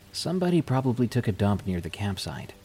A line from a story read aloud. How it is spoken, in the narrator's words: quickly replied